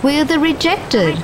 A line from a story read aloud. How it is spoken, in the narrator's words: we shout